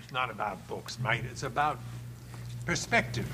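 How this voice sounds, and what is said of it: Australian accent, poorly done. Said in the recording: “It's a horrible Australian accent.”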